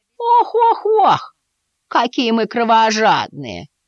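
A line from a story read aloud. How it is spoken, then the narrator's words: Smirking snort. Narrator (Russian): хмыкнула Дульсимот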